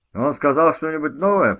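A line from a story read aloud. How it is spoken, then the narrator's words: Shouted question. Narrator (Russian): прокричал Билл Дикман, один из тех, кто предпочел стопку спиртного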